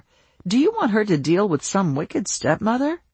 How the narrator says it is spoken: Hannah laughed, but the thought unsettled her

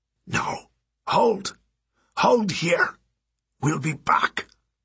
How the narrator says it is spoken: Abner whispered

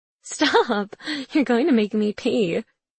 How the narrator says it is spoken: she giggles

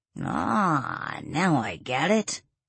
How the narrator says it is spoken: Adam said with a dry chuckle

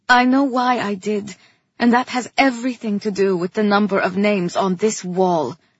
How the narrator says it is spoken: I said sharply

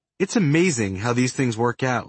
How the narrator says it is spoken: Luhnow said

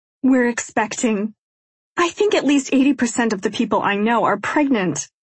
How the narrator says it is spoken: I reply with a laugh

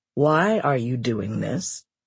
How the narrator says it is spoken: he asked

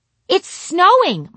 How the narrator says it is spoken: my grandma exclaimed

